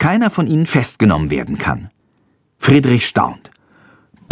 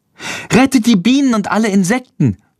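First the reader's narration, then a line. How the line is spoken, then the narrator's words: Calling out. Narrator (German): ruft Lilly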